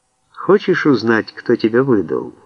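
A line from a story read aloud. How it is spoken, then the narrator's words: Gentle question. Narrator (Russian): ласково спросила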